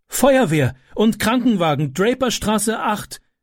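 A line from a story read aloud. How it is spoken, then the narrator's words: Calling out. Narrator (German): rief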